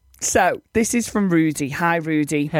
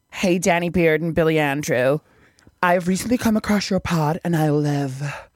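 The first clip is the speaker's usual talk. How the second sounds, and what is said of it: Put-on American accent. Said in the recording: “read this in an American accent”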